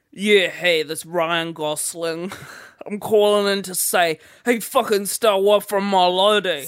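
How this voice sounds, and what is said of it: Slurred American Ryan Gosling impression. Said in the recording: “He's got on an American... You sound like you're slurring”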